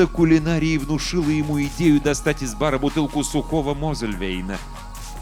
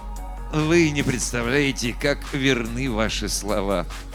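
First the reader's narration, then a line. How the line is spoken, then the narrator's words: Sighing, smiling, cryptic. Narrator (Russian): Доктор Слеу, вздохнув, улыбнулся и непонятно сказал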